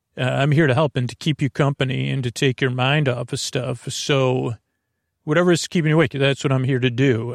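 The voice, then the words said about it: Creaky, soothing low voice. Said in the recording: “I'm going to use lulling, soothing, creaky dulcet tones. Oh, so creaky are my dulcet tones ... not perfect, not traditionally soothing ... better than tolerable, but I wouldn't call it melodious. It does have some melody”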